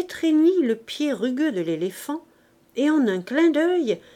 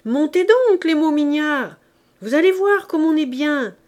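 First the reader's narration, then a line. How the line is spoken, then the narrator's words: Shouted. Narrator (French): cria-t-il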